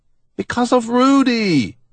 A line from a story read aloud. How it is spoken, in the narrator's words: Alan thunders